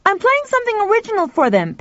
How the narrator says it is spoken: Pal shouted back

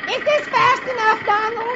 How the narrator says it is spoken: without looking back, she shouts

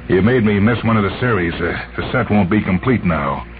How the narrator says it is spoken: He said bitterly

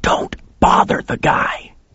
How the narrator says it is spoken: he hissed at me

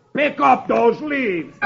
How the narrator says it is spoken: the other one roars

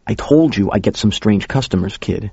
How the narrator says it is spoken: said

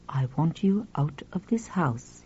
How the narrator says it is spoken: he said quietly

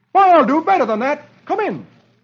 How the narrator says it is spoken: Dagwood replies cheerfully

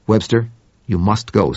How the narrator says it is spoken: said Henderson

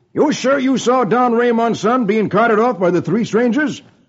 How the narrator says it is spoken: The sheriff exclaims

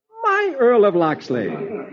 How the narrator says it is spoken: realizing that Robin is the Earl of Locksley, Marian exclaiming

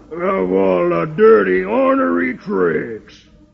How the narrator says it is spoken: Brimstone growls

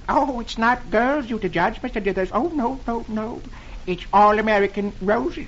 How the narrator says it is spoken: the man says timidly

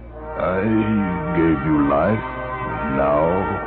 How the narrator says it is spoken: He said in an even voice

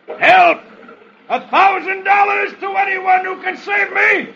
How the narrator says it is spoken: from midstream, he yells

